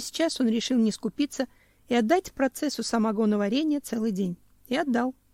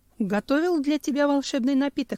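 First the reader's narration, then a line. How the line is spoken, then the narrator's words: Plain. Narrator (Russian): сказал он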